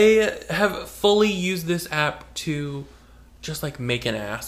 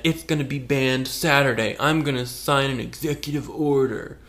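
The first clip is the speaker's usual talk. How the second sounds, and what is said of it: Imitates another person's voice. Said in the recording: “Very good impression.”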